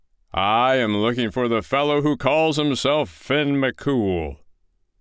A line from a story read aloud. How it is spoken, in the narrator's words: roared the giant in a voice that shook the walls of the house